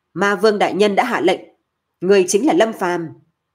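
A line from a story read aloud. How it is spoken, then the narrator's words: Loud. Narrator (Vietnamese): Thẩm Phi Minh lớn tiếng nói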